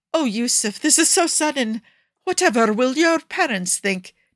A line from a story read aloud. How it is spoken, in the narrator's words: Nikki gasps in fake surprise